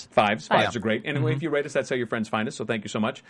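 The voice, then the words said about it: Very fast auctioneer-like patter. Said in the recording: “He sounds like an auctioneer.”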